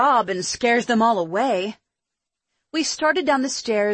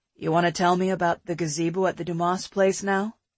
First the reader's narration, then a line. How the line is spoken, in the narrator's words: he asked